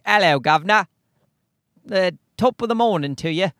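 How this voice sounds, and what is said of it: Mock British accent. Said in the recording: “people in England also speak English, but they're like ... is that Irish? ... British. So, they have different accents.”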